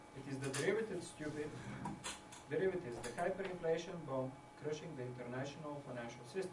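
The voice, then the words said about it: Speaks with a noticeable accent. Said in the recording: “You don't like my accent.”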